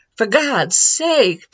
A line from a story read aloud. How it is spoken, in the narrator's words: Peterson exclaimed